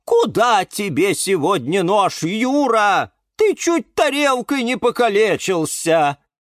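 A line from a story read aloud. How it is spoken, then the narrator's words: Loud shout. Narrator (Russian): громко прокричал кактус Кирилл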